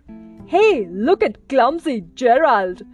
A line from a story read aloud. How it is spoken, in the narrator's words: The animals all laughed